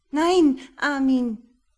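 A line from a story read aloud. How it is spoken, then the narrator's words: Whining. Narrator (German): jammerte Elvira Knottermann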